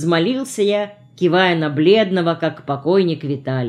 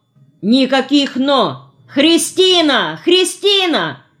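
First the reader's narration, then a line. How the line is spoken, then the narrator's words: Loud yelling. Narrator (Russian): Я так вопил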